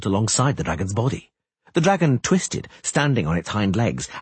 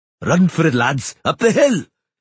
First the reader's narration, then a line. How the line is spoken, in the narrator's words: Yarp and Zigrin bellowed, outshouting the screams of Gar